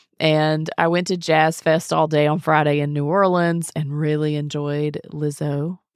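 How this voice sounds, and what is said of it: Slightly hoarse voice. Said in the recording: “my voice is a little hoarse. I've got a cold.”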